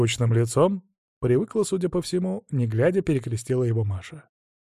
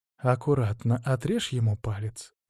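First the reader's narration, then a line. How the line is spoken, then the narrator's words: Whisper. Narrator (Russian): шепнул я Аршисе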